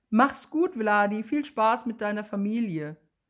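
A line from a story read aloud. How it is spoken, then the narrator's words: Called out. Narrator (German): ruft Willi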